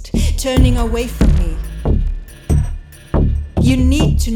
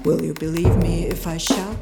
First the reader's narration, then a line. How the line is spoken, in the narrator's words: mumbled